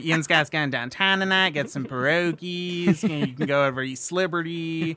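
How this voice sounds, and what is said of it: Put-on Pittsburgh Yinzer accent. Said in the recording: “this accent ... it's very Appalachian ... too many teeth to be a true Yinzer”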